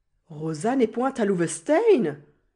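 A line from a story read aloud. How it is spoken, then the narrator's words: Exclaimed. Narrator (French): s'écria Cornelius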